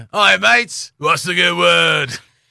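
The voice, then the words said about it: Put-on Australian accent. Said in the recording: “that is an easy one to put an Australian accent”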